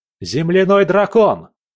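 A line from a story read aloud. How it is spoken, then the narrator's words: Shout. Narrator (Russian): прокричал я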